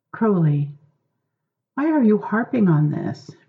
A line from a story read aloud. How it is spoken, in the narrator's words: Crowley sighed